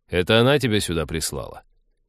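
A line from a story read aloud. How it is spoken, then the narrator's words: Mocking blunt snort. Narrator (Russian): Ликвидатор издевательски хмыкнул и без обиняков посоветовал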